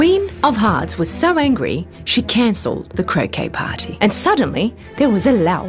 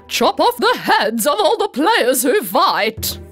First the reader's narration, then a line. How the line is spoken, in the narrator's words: yelled with anger